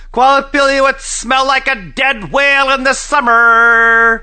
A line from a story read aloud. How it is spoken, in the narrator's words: Alashua yelled